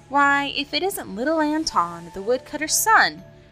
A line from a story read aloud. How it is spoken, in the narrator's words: exclaimed the very stout cabbage